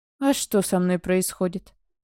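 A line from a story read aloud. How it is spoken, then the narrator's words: Mocking, bristling. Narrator (Russian): Насмешливо вскинулся Ивар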